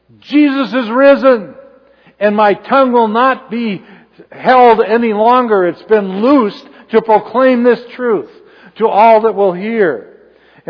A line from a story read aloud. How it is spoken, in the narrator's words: The same one who had denied Jesus, speaking in a loud voice